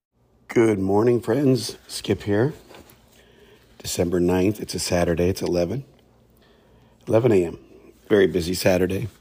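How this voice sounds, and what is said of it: Slightly hoarse voice. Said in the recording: “My voice is a little better ... I'm still a little hoarse ... I couldn't help but scream”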